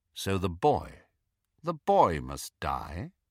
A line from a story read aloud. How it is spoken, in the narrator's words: asked Snape quite calmly